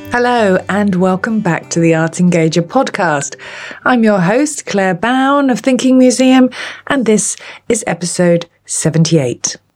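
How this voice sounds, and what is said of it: Hoarse, strained voice. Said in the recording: “as you can probably hear, I've recently lost my voice”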